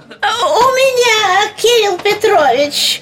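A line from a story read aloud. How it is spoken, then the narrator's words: Squeaky plump female voice. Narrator (Russian): пропищал толстый дамский голос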